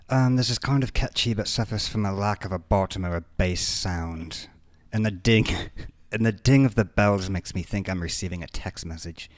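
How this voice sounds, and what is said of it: Pretentious put-on British accent. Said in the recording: “I'm gonna read this in my most pretentious manner. ... British accent, go.”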